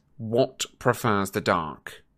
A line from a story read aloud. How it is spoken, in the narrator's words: Malfoy say sharply to Crabbe and Goyle, a trace of panic in his voice